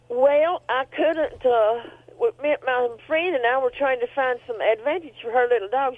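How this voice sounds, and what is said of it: Southern American accent. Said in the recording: “there you go with the accent ... with an accent like that. I just love those southern accents.”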